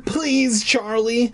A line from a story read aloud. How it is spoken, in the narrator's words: I begged